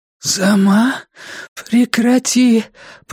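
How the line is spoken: Hoarse rasp. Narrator (Russian): прохрипела она

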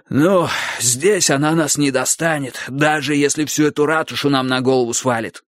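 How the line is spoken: Wheezing. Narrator (Russian): прохрипел Клопауций

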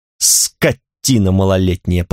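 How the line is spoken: Muttered through teeth. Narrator (Russian): пробормотал я сквозь зубы

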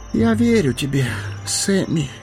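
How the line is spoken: Hoarse. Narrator (Russian): хрипло проговорил он

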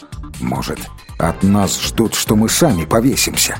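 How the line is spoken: Grumbling. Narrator (Russian): проворчал его приятель

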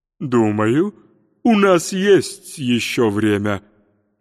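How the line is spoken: Slightly uncertain. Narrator (Russian): немного неуверенно повторил он

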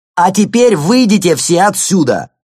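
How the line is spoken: Young man shouting. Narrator (Russian): крикнул молодой араб

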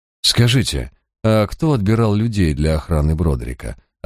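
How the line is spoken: Deliberately indifferent inquiry. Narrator (Russian): осведомился я нарочито равнодушным тоном

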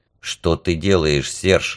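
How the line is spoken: Whispered question. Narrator (Russian): шепотом спросил меня Вальдо

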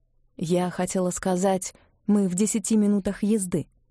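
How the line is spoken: Quick correction. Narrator (Russian): быстро поправила Сивга

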